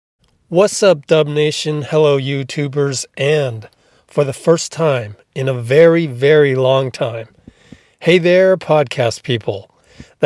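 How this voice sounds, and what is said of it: Radio announcer voice. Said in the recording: “in my new radio voice”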